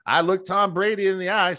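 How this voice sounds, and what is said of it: Imitates another person's voice. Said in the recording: “bad impersonation of California Bill impersonating Collinsworth”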